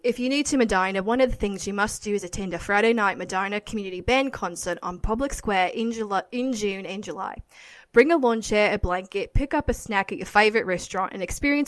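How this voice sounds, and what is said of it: Put-on Australian accent. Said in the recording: “try to do Australian.”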